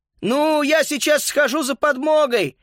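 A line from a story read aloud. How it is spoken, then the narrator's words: Shout. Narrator (Russian): крикнул Макс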